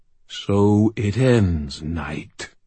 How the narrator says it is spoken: purred the smooth demon voice of Ursiel

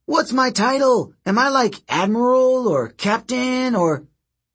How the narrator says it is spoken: He yelled

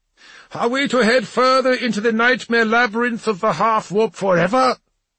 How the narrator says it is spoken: Bulvi roared with laughter

